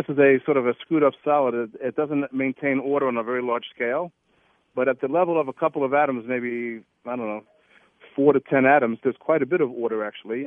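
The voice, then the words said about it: Brooklyn New York accent. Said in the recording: “as you can tell from my voice, I'm a native of Brooklyn, New York”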